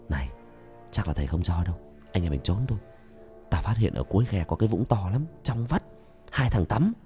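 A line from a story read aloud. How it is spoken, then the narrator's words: Whisper. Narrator (Vietnamese): ông nhõi thì thầm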